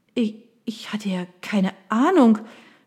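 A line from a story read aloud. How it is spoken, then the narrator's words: Stammering. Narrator (German): stotterte Mallory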